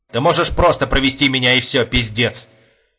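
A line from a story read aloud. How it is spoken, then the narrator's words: Angrier request. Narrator (Russian): Уже более сердито попросил Епифанов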